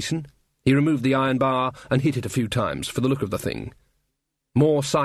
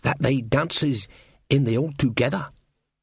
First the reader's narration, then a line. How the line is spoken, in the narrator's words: said Jason, lowering his voice